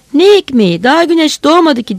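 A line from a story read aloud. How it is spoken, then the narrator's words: Several voices shouting. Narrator (Turkish): diye bağırıyorlardı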